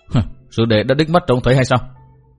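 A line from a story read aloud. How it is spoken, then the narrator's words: Cold mocking question. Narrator (Vietnamese): Cát Đà Tố cười nhạt hỏi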